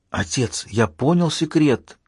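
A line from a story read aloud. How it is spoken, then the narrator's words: Whispered answer. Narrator (Russian): ответил шепотом МакГи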